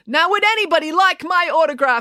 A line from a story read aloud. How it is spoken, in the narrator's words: she cried to the crowd